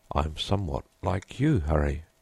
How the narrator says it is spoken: he answered

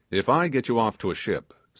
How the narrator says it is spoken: said he

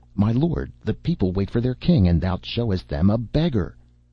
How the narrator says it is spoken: the nobles made merry, and some of them cried out

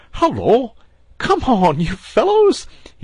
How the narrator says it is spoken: he cried cheerfully

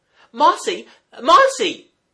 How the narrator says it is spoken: cried aloud in terror

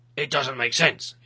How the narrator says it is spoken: he growled

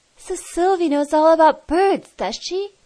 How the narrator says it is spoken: He exclaimed

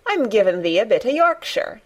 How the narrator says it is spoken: answered Mary triumphantly

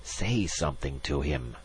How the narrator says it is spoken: Magnan hissed

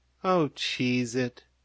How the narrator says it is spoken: said Maisie, wearily

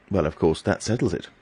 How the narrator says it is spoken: said stiffly

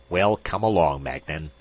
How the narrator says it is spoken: voice snapped

